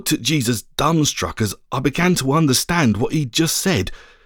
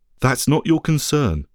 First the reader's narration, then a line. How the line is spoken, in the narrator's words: he said